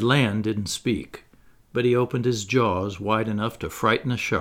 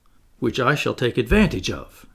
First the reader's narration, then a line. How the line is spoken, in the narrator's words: exclaimed the Canadian